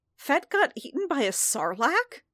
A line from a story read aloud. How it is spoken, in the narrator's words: Din spluttered, startled